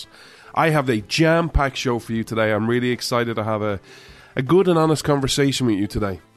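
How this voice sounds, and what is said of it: Irish accent. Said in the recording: “This Irishman ... where you come for the accent”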